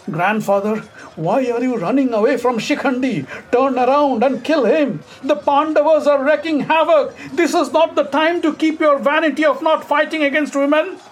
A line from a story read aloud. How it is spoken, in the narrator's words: he yelled